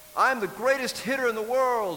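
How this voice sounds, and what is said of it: Little boy's announcer voice. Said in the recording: “I'm pretending to be an announcer voice that little boys use”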